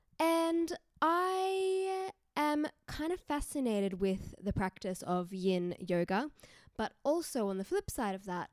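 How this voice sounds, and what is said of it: Australian accent. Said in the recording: “in Newcastle, Australia, if you couldn't tell by my accent.”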